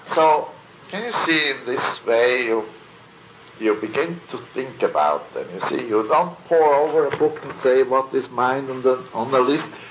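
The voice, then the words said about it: German-accented English. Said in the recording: “my English? ... German accent.”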